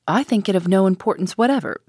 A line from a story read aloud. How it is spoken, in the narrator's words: said Madame Fosco sharply and suddenly